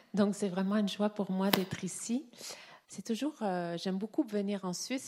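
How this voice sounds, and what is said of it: Noticeable foreign accent. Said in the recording (French): “j'ai un accent”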